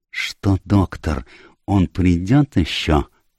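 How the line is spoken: Whispered question. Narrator (Russian): шепотом спросил Пуаро

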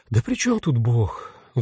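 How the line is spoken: Sigh. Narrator (Russian): вздохнул ангел смерти

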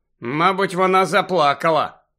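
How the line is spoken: Rueful mutter. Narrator (Ukrainian): скрушно буркнув Гаррі

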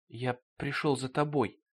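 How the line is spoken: Whisper. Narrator (Russian): прошептал Меджет

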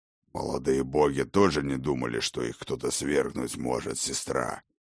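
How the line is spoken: Growled. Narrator (Russian): прорычал Ракот

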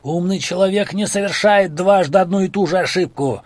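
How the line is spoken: Yelling over a storm. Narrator (Russian): вопит Исидор сквозь рев бушующей стихии

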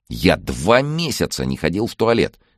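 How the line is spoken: Indignant complaining. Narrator (Russian): возмущенно жаловался Андрей

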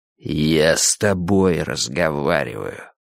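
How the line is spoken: Quiet, eerie voice. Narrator (Russian): тихим, жутким голосом сказал Фариш

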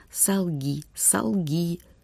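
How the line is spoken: Commanding whisper. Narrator (Russian): духи, то ли злые, то ли добрые, сразу не разберешь, властно шептали Юми

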